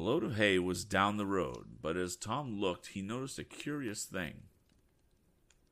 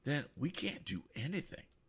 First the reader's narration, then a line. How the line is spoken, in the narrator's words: murmured Mr